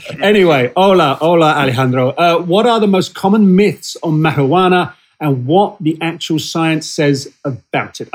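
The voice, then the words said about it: British accent. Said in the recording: “my sad British accent”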